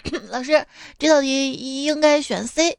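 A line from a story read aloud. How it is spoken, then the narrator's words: Smiling, throat-clearing, thoughtful. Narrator (Chinese): 他微微一笑，清了清嗓子，略作沉思状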